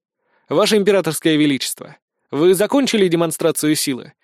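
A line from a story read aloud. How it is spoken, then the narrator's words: Calm question. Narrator (Russian): спокойно спросил у него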